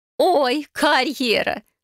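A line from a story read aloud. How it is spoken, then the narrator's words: Laughing. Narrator (Russian): посмеялась Виолетта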